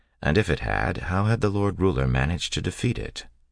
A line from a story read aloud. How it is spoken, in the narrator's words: She sighed